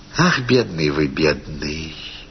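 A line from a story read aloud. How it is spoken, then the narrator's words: Simple, tender. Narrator (Russian): сказала она просто и ласково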